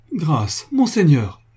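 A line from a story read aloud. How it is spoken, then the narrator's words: Pleading, disbelieving cry. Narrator (French): s'écria Franz d'une voix suppliante, ne pouvant croire à ce qu'il entendait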